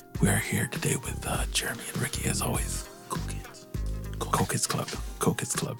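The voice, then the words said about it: Late-night radio DJ voice. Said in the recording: “my late night DJ voice.”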